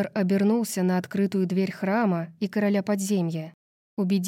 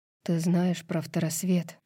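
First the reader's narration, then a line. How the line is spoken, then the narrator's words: Whispered question. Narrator (Russian): шепотом спросил Итан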